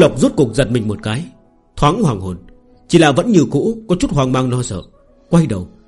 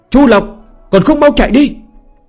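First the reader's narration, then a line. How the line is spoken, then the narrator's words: Urgent loud shout. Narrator (Vietnamese): Lý Hòe nhịn không được cao giọng hô lên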